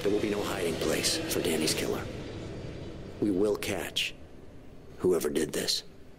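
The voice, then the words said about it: Convincing American accent. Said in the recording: “David Tennant's American accent ... He sounded great ... his seems to be spot on”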